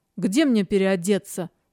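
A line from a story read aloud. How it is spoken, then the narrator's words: Icy question. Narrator (Russian): спросила ледяным тоном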